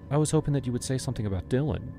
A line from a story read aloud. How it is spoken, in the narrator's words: she said